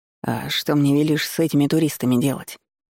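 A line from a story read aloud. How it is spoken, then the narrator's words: More conciliatory grumble. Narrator (Russian): буркнул шеф уже более примирительным тоном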